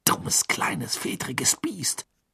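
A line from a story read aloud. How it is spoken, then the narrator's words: Angry hiss. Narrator (German): zischte Ron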